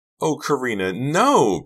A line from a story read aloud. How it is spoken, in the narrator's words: Pretty cried